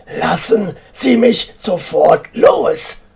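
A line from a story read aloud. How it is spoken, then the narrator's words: Furious roar. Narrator (German): brüllte wütend, weil ihn der Bauarbeiter immer noch festhielt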